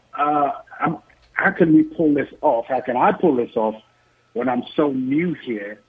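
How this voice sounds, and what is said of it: Non-local accent. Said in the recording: “As you can probably tell from my accent, I'm not from here.”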